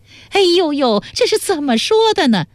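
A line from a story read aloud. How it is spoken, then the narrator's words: Loud exclamation. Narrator (Chinese): 薛嫂在一旁嚷起来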